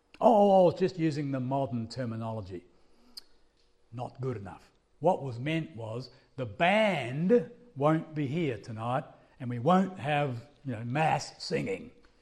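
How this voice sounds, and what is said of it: Australian English accent. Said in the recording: “I'm from Australia. You can probably guess by my accent.”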